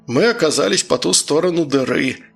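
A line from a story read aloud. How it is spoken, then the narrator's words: Glum sigh, interjecting. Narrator (Russian): невесело вздохнув, вставил Григорий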